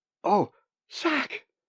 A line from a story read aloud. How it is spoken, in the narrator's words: Molly cried